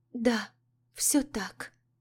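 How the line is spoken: Breaking, barely audible whisper. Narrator (Russian): зашептала она срывающимся, едва слышным шепотом

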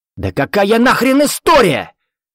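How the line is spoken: Yelling. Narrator (Russian): заорал Виктор

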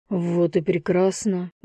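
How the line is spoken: Grumbled. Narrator (Russian): буркнул Дамир

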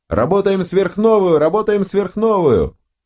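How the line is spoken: Laughing loudly. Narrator (Russian): расхохотался

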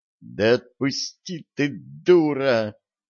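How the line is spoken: Hissing. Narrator (Russian): зашипела Янка на лежащую под ней подругу

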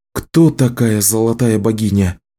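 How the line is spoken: Calm question. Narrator (Russian): спокойно спросила Кэлен

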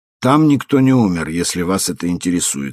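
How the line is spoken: Calm. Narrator (Russian): спокойно сказал он

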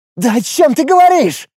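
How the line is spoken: Hysterical shriek, young goblin. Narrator (Russian): в истерике взвизгнул молодой гоблин

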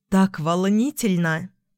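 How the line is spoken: Admiring sigh. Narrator (Russian): Вздохнула восхищенно

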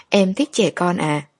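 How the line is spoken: Gentle smile. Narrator (Vietnamese): Lục Bác Thần khẽ mỉm cười

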